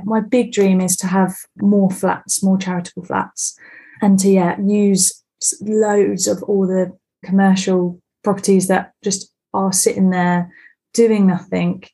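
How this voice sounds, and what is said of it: Refined, non-Stoke English accent. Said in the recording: “you don't have a local Stoke on Trent accent, slightly more refined than mine”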